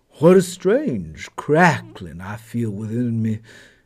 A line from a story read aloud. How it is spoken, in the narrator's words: said